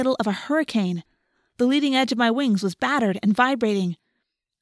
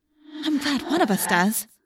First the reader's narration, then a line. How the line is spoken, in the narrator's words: I said nervously